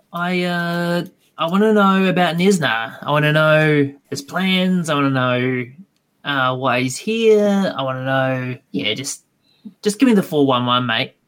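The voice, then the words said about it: Put-on Australian accent. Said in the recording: “my best Aussie accent”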